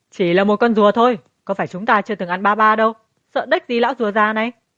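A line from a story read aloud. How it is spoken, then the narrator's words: Defiant shout through teeth. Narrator (Vietnamese): Phi Di nghiến răng, liền hét lớn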